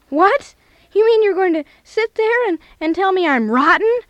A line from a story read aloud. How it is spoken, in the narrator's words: yelled the infuriated man